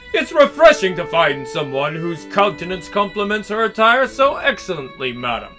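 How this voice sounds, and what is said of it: Forced posh accent. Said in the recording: “Forcing a posh accent ... Yeah, I'm nailing it.”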